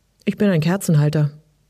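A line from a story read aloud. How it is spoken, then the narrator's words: Dry reply. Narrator (German): kam es trocken zurück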